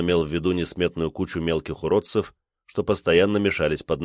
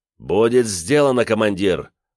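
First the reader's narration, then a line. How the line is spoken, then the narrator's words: Furious shout. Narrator (Russian): наливаясь бешенством, прокричал бес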